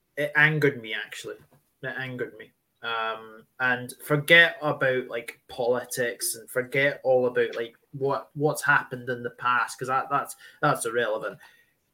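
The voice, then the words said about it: Broad Scottish accent. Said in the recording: “as you can tell from your accent, you're Scottish. I know you try to hide it, but it's there. It's very broad.”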